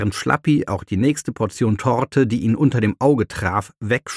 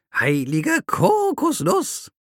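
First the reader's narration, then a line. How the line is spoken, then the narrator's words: Croaked. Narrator (German): krächzte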